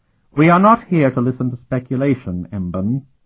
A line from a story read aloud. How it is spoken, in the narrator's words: Markova snapped quickly